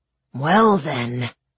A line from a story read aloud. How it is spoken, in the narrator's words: said, in his rumbling voice